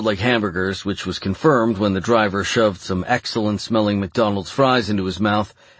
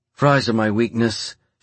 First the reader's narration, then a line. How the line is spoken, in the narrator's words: she sighed